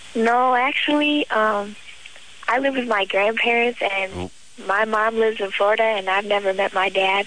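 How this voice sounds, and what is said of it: Young, girlish high voice. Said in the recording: “you got that little girl voice”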